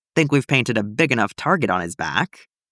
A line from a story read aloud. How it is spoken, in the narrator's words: Niall snorts